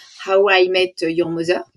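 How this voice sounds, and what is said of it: English title with strong French accent. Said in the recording (French): “je vais le dire très mal en anglais, désolé d'avance pour mon accent terrible”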